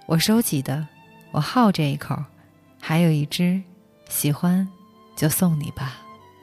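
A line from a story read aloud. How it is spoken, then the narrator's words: Flat, casual tone. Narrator (Chinese): 老板淡淡的说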